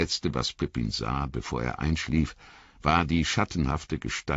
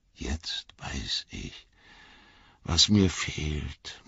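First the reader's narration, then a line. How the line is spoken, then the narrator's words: Murmur. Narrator (German): murmelte er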